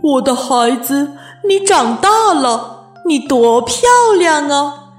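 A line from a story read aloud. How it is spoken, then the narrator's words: Admiring motherly exclamation. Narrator (Chinese): 鳄鱼妈妈都会感叹地说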